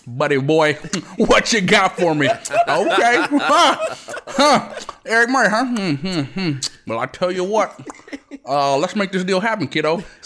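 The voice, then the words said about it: Imitates another person's voice, gum-chewing. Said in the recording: “why do you sound like Baker Mayfield doing a John Dorsey impression? ... It's a lot of chewing. It's a lot of chewing gum. Or saying, "Buddy boy," ... you transform before our very ears. I heard it happen.”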